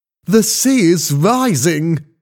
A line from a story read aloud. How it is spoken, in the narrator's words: Skink shouted